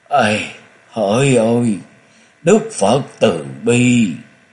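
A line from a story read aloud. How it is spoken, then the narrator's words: Mournful sighing voice. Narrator (Vietnamese): Kiến Tính đại sư thở dài bằng một giọng thê lương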